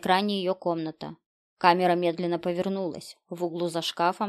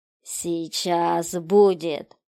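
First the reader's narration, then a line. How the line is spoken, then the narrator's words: Hissing voice. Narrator (Russian): Голос зашипел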